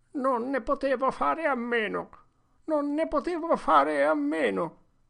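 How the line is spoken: Moaning. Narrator (Italian): gemette Potter

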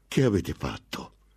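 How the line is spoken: Outburst. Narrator (Italian): sbottò

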